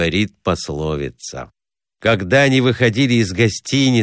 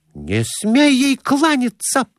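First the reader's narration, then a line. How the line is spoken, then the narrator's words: Exclaimed. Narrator (Russian): воскликнула Глафира Семеновна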